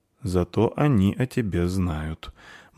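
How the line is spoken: Said grimly. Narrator (Russian): мрачно сказал Вар

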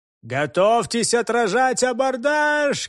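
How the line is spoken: Captain's shout. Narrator (Russian): крикнул капитан

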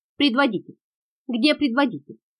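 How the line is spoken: Loud commanding shout. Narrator (Russian): Громким голосом закричал Бера, зная, что только таким повелительным тоном и можно воздействовать на этих людей

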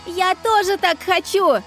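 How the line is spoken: Joyful yell. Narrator (Russian): Проорала я радостно смерчу

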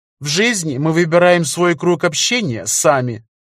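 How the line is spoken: Lecturing tone. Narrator (Russian): сказал Федор лекторским тоном

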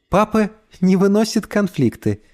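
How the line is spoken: Giggling woman. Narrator (Russian): хихикнула мама

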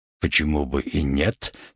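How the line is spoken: Calm reply. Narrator (Russian): спокойно ответил парень

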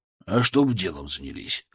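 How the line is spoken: Smirking grunt. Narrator (Russian): хмыкнул Сергей

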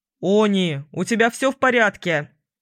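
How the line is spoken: Loud question. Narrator (Russian): громко спросил принц

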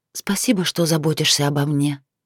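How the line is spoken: Whispered. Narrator (Russian): девушка прошептала

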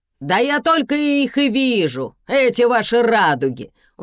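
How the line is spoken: Howl from behind. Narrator (Russian): взвыл кто-то сзади

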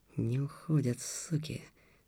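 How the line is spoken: Whisper. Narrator (Russian): шептал Антон

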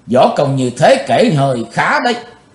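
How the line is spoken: Cold, indifferent. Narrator (Vietnamese): Giọng của chàng lãnh đạm thốt lên

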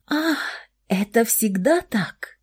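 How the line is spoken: Surprised whisper. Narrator (Russian): удивленно прошептала Александра

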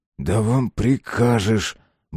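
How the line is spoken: Gruff grumble. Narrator (Russian): буркнул Шестаков

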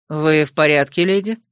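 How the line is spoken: Calm question. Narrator (Russian): совершенно спокойно спросил мастер Лаор

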